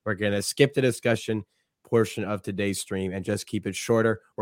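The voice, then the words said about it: Hoarse, strained, fading voice. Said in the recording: “as you can tell from my voice, I've been losing my voice.”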